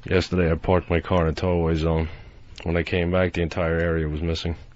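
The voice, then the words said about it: Flat monotone comedic delivery. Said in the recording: “he sounds a lot like Stephen Wright ... This is monotone delivery ... That's about how he does it.”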